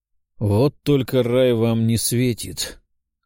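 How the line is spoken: Cold demonic voice. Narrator (Russian): холодно сообщил демон

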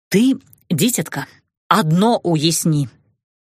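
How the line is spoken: Stern. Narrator (Russian): строго сказала

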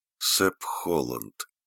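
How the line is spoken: Weak voice. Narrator (Russian): слабым голосом вымолвила

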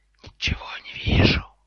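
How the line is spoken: Hissing. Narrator (Russian): прошипел Гарри

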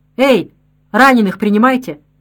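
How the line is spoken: Hoarse, indifferent shout. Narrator (Russian): Красноармеец, закутанный по глаза шарфом, простуженным, безразличным голосом крикнул

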